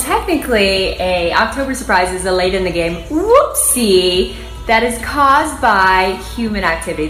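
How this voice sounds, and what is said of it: Strong vocal fry. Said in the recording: “the vocal fry. If you don't know what vocal fry is, that's what it is. You just heard probably the best slash worst example of vocal fry. At the very beginning”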